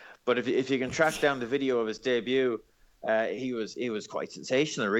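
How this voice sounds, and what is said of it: Usual voice. Nothing is said of it.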